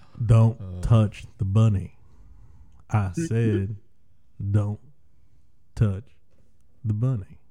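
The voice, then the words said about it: Imitates another person's voice. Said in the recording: “Do your best Nicolas Cage impression... That's Nick Cage? Where's my Nick Cage?... That was your impression.”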